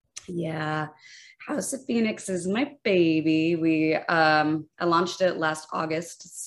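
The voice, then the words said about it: Husky, sexy-sounding voice. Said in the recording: “I'm recovering from a little COVID right now ... in case I go into a cough fit ... I am here to deliver a sexy voice.”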